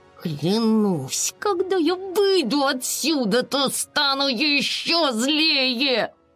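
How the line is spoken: Indignant, through gritted teeth. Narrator (Russian): Безрезультатные усилия подруг привели Айси в еще большее негодование, и она процедила сквозь зубы

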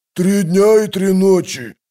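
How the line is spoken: Growled. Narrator (Russian): прорычал Кафал

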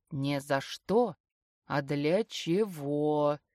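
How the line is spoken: Low playful voice. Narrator (Russian): низким голосом с игривой интонацией

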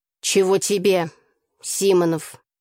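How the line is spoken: Stern question. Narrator (Russian): строго спросила Тася

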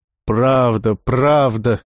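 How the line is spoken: Laughing. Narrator (Russian): рассмеялся Бер

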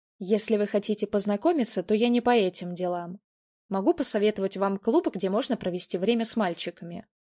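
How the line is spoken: Calm bartender. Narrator (Russian): спокойно сказал бармен

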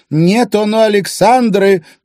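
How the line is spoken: Booming voice. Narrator (Russian): прогремел голос Александры

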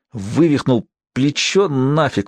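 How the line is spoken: Hissing through teeth. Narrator (Russian): прошипел сквозь зубы Асиан

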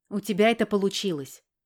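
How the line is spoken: Snorted. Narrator (Russian): Хмыкнула

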